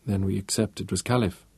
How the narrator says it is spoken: stated flatly

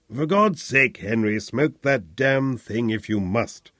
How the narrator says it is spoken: grunted Sir Percy

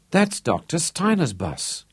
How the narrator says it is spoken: gasped Johnny

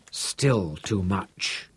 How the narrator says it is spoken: Lothar muttered to himself

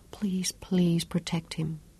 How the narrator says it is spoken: breathed

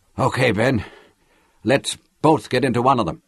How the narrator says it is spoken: Lauren panted

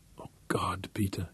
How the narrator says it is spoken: she whispered

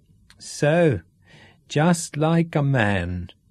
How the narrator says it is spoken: Uma chuckled

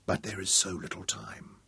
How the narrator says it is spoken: she whispered aloud

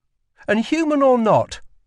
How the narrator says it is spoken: added Lila sharply

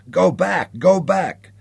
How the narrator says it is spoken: Sally Ann was screaming

